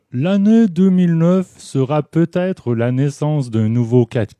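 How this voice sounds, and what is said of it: Imitates a French politician's voice. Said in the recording (French): “je vais vous imiter le président, en fait l'ex-président, pardon, de Sarkozy ... je vais prendre le ton de Sarkozy, vu que c'est une imitation”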